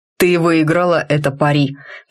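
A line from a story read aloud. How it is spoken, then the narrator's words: Solemn conclusion. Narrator (Russian): торжественно заключил Рид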